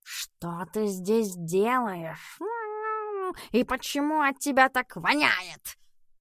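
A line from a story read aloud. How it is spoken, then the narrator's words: Growling. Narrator (Russian): прорычал Эдисон при виде Пабло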